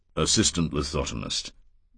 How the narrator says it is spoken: Paris said gravely

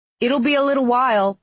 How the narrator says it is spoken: Brock called out

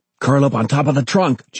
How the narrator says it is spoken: John yelled

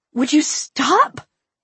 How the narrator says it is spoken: I pleaded pointlessly

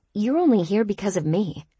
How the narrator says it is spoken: I said

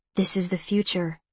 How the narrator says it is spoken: Vosh whispers

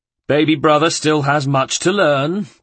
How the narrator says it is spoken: taunted Federico

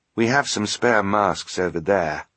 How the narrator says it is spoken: he murmured quietly

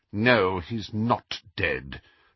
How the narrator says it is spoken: said McGonagall bitterly

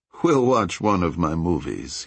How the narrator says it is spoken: said, chuckling a little

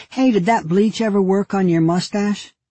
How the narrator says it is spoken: Amy said loudly

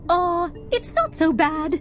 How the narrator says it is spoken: chirped the pixel plant

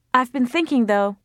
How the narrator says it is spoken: Mariam said, raising her voice so as to be heard over the music

